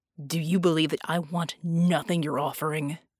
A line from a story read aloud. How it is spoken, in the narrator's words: He growled